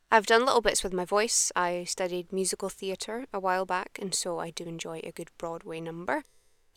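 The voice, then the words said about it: Neutral Scottish accent. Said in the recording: “I'm from Edinburgh in Scotland, so currently I'm speaking in my natural accent. It's quite a neutral Scottish accent”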